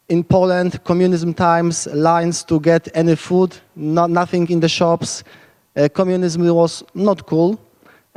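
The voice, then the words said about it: Polish accent. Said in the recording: “I'm originally from Poland. That's where my accent is coming from.”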